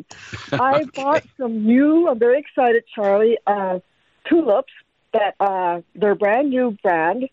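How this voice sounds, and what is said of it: Slightly off voice from a cold. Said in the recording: “My voice is a little wonky. I got a wee cold”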